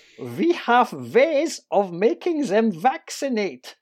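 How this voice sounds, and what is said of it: Put-on German accent. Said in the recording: “You had to do that one in a sort of a multi-German accent.”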